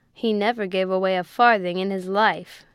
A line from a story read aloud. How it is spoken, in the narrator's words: growled Tinker